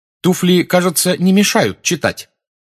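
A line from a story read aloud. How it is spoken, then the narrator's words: Irritated question. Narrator (Russian): раздраженно спросила блондинка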